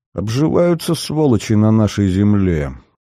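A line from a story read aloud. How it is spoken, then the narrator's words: Jealous grumbling sentry. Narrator (Russian): Ревниво пробурчал часовой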